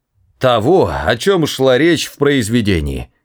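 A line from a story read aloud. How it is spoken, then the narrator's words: Exclaimed. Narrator (Russian): воскликнул он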